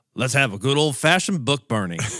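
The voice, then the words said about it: Attempted Southern US accent. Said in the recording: “I got to work on my Southern accent.”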